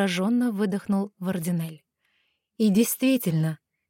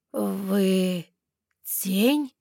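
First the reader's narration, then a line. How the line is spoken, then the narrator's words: Cautious breathy whisper. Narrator (Russian): Осторожно выдохнул лорд Вардинель, словно одно неверное слово развеет собеседника, как мираж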